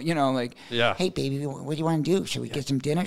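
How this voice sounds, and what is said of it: Put-on weird Brooklyn accent. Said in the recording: “he talks like this, and he's like really weird, and he's got this Brooklyn accent and stuff, so it's like really strange ... stop talking like that”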